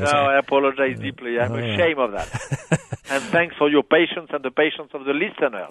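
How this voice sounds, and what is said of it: Non-native speaker with broken accent. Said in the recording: “sorry for my pitiful English and for my broken accent”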